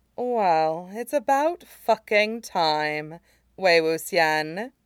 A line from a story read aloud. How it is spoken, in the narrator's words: she drawled